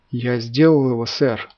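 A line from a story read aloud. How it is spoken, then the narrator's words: Stunned breathless exhale. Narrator (Russian): Потрясенно выдохнул Гудман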